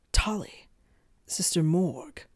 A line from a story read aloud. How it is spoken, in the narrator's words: Merle muttered